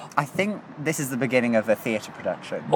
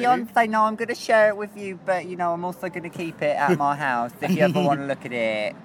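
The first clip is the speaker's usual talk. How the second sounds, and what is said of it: Imitates another person's voice. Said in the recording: “I'm enjoying neither of those accents. ... I felt that we both nailed it.”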